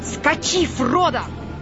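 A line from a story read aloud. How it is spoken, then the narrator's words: Sudden shout. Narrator (Russian): вдруг крикнул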